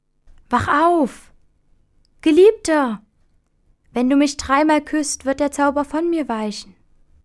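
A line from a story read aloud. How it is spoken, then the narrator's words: Woman calling out. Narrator (German): die schöne Fee Ilona rief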